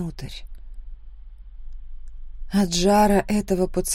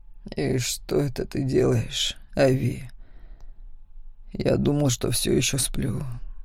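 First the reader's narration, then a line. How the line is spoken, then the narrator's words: Hoarse whisper. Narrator (Russian): хрипло прошептал он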